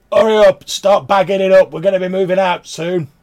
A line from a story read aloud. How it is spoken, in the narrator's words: He shouts